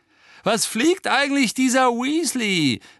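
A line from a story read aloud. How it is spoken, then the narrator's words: Contemptuous call. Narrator (German): rief Malfoy verächtlich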